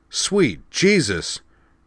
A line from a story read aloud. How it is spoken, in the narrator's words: Earth Force Lieutenant Eldon Mars blurted as his alert panel suddenly went berserk